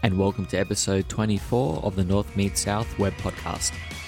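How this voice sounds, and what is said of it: Unusually deep, groggy voice. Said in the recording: “You sound so professional right now. Your voice is really deep. Are you sick? ... Maybe I'm still groggy from last night.”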